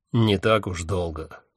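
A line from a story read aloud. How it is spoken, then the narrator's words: Grim chuckle. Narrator (Russian): мрачно усмехнулся Один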